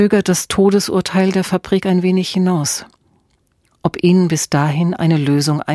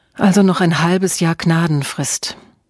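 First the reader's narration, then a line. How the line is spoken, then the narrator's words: Sigh. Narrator (German): Emma seufzte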